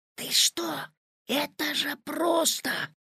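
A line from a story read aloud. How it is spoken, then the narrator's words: Whispering. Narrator (Russian): зашептал Петя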